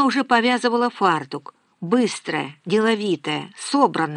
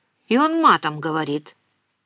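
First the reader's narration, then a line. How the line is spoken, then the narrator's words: Stern objection. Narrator (Russian): возразила строго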